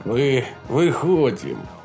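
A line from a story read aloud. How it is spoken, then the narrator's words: Hoarse voice. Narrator (Russian): хриплый голос Мэгги Катч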